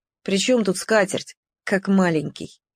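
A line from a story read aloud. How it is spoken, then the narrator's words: Quiet. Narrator (Russian): тихо сказал Толик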